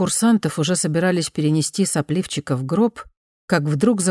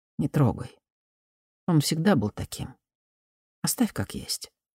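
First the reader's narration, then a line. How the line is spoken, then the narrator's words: Sighing commander. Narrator (Russian): командир отряда вздохнул и сказал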